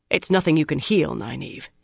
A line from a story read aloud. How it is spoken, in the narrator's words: said roughly